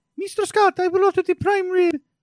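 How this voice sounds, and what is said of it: Put-on Brazilian-style accent. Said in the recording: “my sister-in-law, Daniela from Brazil ... impersonation ... is there really an accent I'm working on there? ... That's an accent.”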